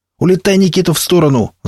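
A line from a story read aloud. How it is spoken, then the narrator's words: Yell. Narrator (Russian): заорал я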